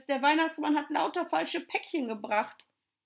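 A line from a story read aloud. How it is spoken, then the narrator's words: Horrified scream. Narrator (German): schrie Tommy entsetzt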